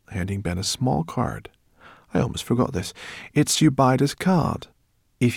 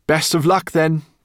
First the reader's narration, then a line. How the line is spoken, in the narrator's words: cried the professor